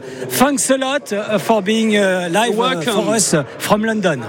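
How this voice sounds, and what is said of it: Exaggerated, poor English accent. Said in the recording (French): “L'accent, vous avez vu un peu, j'ai tout mis, hein ... mon accent est trop moisi”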